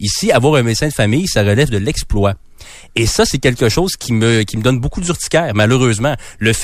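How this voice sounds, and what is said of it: Usual voice. Nothing is said of it.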